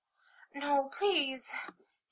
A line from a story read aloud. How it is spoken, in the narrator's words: Kitty begged